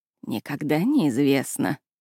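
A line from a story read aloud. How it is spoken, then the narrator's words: Mutter. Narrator (Russian): пробормотала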